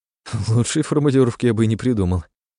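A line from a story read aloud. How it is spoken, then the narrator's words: Laughing. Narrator (Russian): рассмеялся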